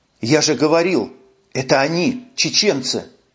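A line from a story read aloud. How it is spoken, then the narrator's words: Fearful whisper. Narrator (Russian): Боязливо поглядывая на лес, шептал Куницын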